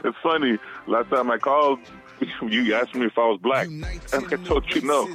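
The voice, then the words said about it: Radio voice. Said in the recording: “you have a radio voice.”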